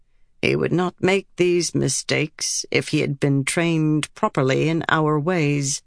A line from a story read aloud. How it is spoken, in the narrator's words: Cerulea murmured